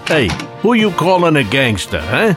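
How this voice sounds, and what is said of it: Jersey gangster accent. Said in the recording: “dialect? He's on it. From a Jersey gangster?”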